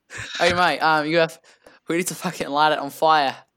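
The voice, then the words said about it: Put-on Australian accent. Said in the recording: “Why am I Australian?”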